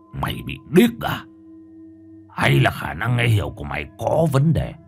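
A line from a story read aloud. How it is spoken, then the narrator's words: Harsh, gritted voice. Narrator (Vietnamese): Lão gằn giọng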